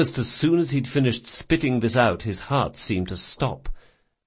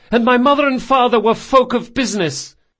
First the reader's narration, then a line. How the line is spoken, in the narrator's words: he yelled